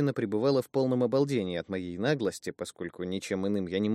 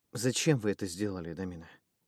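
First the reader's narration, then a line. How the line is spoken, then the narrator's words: Crestfallen, dejected voice. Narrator (Russian): спросил я упавшим голосом, будто речь шла о страшном предательстве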